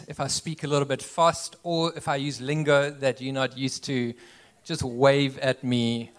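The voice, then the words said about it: South African accent. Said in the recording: “you'll have to get used to my accent ... we made the move from South Africa”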